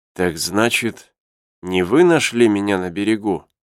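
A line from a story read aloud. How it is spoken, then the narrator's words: Weak, unsteady voice. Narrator (Russian): спросил инженер еще не окрепшим голосом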